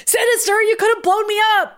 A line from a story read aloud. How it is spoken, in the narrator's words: Maddie yelled